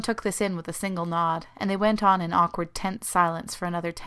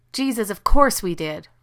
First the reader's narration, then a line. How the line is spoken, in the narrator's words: Rodney snapped